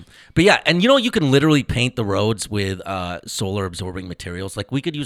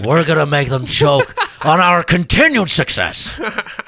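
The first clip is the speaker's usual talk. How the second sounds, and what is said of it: Imitates another person's voice. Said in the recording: “I can also do a little Richard Nixon.”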